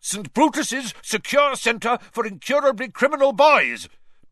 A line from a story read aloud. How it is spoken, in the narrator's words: bellowed Uncle Vernon, a definite note of panic in Uncle Vernon's voice